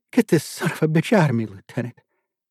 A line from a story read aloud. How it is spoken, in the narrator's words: He begged Miles